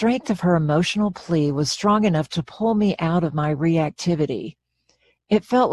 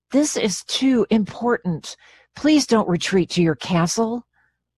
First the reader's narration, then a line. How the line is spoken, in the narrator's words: She urgently pleaded